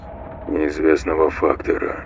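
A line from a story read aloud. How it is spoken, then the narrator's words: Muttered. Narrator (Russian): пробормотал Марсель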